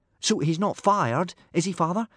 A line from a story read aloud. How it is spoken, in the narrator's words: said Hiccup anxiously